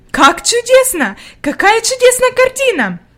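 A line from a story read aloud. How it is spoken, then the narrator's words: Exclaimed. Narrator (Russian): воскликнула она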